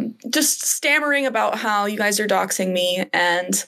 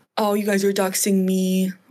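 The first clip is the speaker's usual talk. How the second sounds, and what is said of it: Imitates another person's voice. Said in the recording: “I don't know why I'm doing a Trump voice.”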